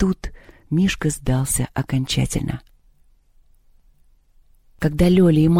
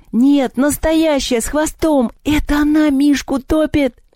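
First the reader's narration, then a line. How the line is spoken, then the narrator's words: Shrieking. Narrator (Russian): завизжала Маша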